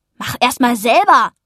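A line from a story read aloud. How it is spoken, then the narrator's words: Called out. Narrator (German): rief er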